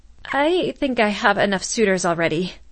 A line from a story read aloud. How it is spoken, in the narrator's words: Kalina said, her voice trembling